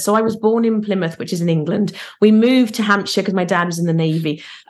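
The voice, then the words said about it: Mixed British accent. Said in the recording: “my accent is a bit all over the place. It's not definitely not from South Carolina, but it's not also a strict Lethley accent either”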